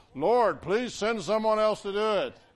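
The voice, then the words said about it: Imitates another person's voice. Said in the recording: “my Charlton Heston impersonation”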